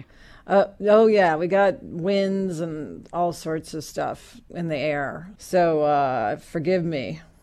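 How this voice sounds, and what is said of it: Congested, allergy-affected voice. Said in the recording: “as you can probably hear, I'm suffering some allergies, so my voice is, you know, even more whatever it is than usual”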